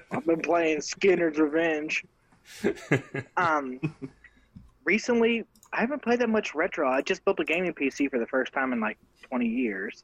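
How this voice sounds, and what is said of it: Southern American accent. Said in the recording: “the nice, slick, southern accent”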